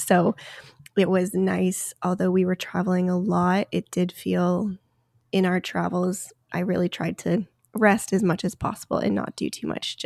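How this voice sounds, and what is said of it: Sick, congested-sounding voice. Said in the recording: “I'm sure you can hear it in my voice. ... been sick before Christmas, during Christmas, recovered for a few days, got sick again”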